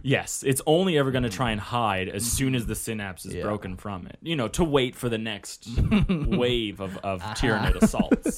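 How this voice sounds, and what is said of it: Sarcastic delivery. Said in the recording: “that's in sarcasm. Case you can't tell, that was sarcasm.”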